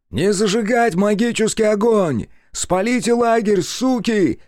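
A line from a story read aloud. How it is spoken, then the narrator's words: Shout. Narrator (Russian): крикнул еще кто-то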